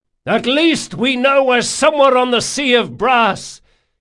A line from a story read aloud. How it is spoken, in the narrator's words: he shouted above the din